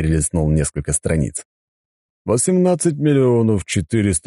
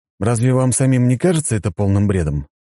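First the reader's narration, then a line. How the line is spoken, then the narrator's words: Calm. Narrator (Russian): спокойно произнес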